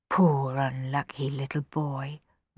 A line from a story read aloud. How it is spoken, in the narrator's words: murmured Rowan